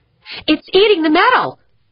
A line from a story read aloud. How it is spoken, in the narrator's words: yelped